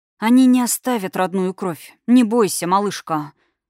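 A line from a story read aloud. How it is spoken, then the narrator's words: Relieved exhale. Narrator (Russian): Выдохнул он с облегчением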